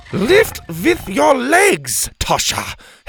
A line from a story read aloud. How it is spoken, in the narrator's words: Helga barked